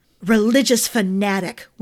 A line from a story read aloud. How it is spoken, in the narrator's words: Winston spat